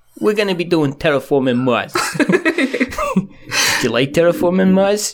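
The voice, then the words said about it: Impression with New York accent. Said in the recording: “I end up going into Stephen Bonacore instead because he's New York ... my Stephen Bonacore impression ... Stephen Bonacore is easy because he's just like New York.”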